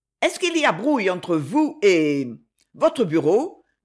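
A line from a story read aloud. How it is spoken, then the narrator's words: Rather unpleasant tone. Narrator (French): demanda-t-elle d'un ton assez désagréable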